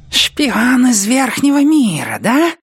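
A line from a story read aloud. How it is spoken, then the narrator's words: Hissing. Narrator (Russian): прошипел предводитель крыситов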